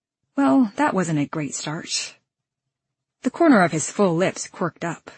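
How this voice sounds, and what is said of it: Usual voice. Nothing is said of it.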